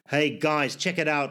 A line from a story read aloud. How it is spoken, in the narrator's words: shouted one soldier